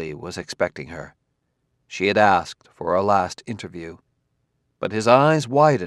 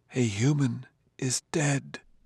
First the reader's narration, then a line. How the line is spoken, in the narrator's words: he whispered